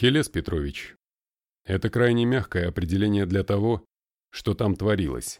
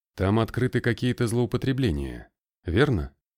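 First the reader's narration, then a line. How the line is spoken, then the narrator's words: Sighing. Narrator (Russian): Никодимов вздохнул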